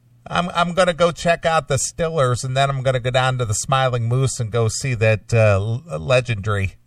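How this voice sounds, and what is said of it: Pittsburgh accent. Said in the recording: “Pittsburgh accent ... that funny accent”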